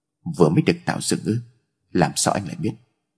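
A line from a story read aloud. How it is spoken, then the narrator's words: Cold, suspicious. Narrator (Vietnamese): Trần Vũ Bình nheo mày lạnh lùng nói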